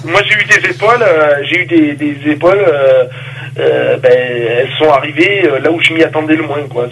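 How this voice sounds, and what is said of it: Speaks with a slight accent. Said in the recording (French): “excusez-moi de mon petit accent”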